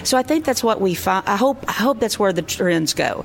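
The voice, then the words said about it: Slow drawn-out Southern accent. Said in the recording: “your accent, you know, we talk a little slow, maybe we make one syllable into three”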